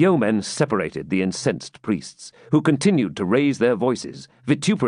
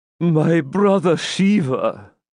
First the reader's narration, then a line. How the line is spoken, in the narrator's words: said, groaning deeply